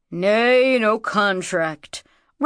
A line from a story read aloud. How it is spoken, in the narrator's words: rumbled Nkank